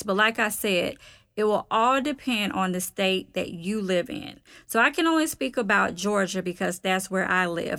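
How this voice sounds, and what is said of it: Southern US accent. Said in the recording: “my little southern accent”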